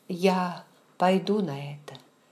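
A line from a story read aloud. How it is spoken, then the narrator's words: Soft speech. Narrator (Russian): мягко сказала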